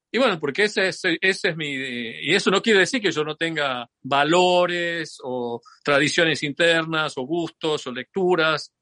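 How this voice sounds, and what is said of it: Argentine Tucumán accent. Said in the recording (Spanish): “sigo hablando con acento tucumano o con algún acento tucumano”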